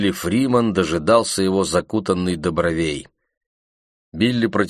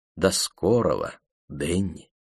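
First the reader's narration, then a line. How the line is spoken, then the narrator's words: Soft, friendly. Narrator (Russian): мягко сказали ему, как старому приятелю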